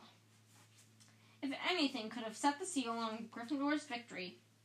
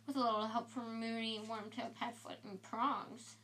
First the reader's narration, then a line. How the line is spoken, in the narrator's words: Fred muttered in Harry's ear